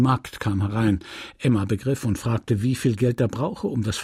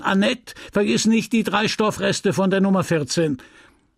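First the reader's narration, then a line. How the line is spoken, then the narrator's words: Calling through a peephole. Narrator (German): rief durchs Guckloch in den Laden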